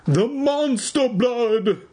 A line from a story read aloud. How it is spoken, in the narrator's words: Evan cried